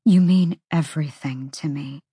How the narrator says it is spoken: she breathed

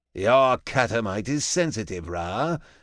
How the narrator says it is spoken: Ajax purrs, playing it off as a farce

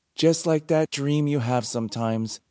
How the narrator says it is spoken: Clary said brightly

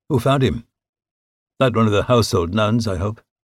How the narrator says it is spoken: Calmly, asked

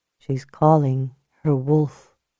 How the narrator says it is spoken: Julia said quietly

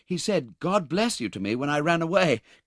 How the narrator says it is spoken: cried the boy with a burst of affectionate emotion

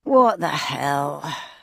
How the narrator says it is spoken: groaned

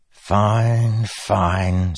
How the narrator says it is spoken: Sadius said, sighing

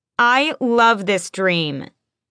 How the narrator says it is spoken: I yell through the bathroom door

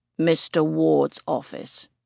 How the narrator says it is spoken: he rumbles, surprisingly gently given his mammoth size

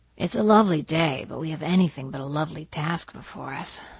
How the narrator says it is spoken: sighed Diana

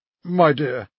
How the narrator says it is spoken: said, sighing

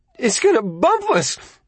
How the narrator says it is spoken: Bobby screeched from the back seat

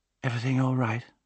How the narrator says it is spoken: she mumbled, still half asleep

